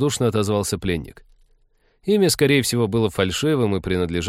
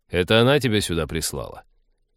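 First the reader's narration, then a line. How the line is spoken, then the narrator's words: Mocking snort. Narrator (Russian): Ликвидатор издевательски хмыкнул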